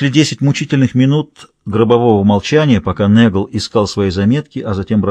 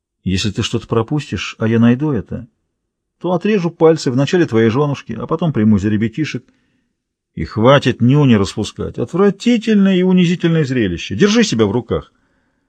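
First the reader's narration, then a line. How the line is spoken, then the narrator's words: Indifferent tone. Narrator (Russian): Пэл добавил равнодушным тоном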